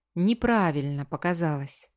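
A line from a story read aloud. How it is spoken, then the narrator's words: Soft male voice. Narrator (Russian): мягко произносит мужчина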